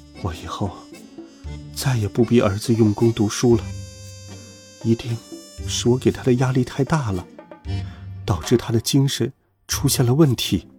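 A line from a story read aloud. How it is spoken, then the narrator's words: Mother murmuring to herself. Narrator (Chinese): 妈妈喃喃自语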